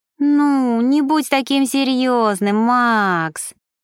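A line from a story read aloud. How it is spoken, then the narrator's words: Pouting drawl. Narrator (Russian): протянула Мишель, сложив губы сердечком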